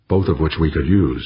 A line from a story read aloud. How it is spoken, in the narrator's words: said Nodan